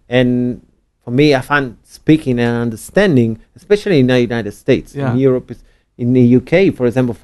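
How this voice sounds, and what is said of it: Prim, proper British-style English accent. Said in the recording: “some words that are very, very prim and proper, the way that you deliver, much like British English”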